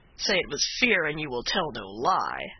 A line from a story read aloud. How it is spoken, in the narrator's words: said his comrade with a sneer